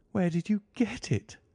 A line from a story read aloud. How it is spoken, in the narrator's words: groaned